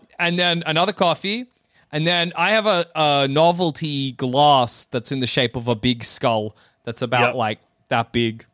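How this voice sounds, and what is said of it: Speaker's own regional accent. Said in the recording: “you're just getting confused by my accent”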